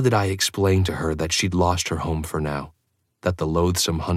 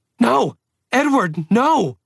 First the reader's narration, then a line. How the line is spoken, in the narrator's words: howled